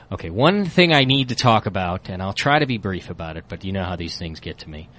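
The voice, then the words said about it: Hoarse, strained voice. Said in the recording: “my voice has been wrecked for 3 days”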